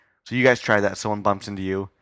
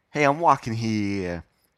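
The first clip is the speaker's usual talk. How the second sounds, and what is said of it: Put-on New York accent. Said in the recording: “I want to just say in the New York accent”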